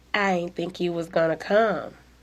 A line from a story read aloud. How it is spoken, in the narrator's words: she murmured